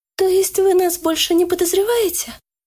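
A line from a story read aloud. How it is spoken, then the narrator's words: Timid question. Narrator (Russian): робко спросила Лика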